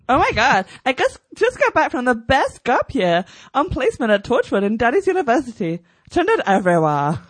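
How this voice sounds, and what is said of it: Imitates another person's accent. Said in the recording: “Special commendation to Billy Piper's new teeth and accent.”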